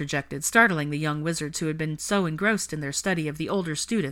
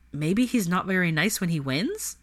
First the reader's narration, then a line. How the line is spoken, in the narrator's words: Malcolm mused while also chuckling